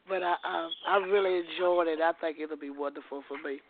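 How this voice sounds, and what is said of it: Hoarse, raspy voice. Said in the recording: “I'm sorry I'm so hoarse ... It's all right that you coughing”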